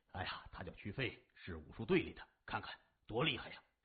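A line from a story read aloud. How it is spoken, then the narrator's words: Casual, absorbed. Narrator (Chinese): 年轻人正入迷呢，随口说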